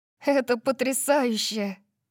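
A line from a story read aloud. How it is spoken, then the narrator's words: Laughing, echoing voice. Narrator (Russian): засмеялась я, и мой голос эхом отозвался во мне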